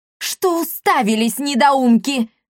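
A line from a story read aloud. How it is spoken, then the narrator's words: Shouting. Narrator (Russian): закричала миледи Лионелла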